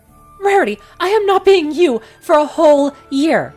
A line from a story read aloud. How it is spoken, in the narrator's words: Spike screeched